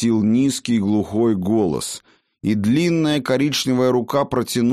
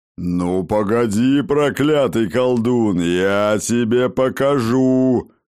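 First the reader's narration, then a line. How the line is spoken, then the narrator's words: Guardian's angry growl. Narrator (Russian): зарычал ему вдогонку хранитель источника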